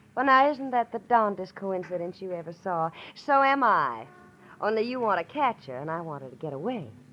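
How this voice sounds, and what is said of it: Southern US accent. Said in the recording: “a southern accent”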